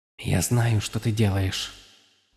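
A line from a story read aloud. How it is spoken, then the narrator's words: Whispered. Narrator (Russian): прошептала Вуаль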